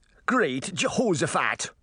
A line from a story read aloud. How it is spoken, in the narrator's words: he cried